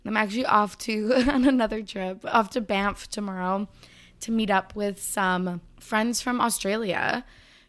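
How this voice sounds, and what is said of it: Slightly congested voice. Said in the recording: “back with a slight cold. You can probably hear that in my voice.”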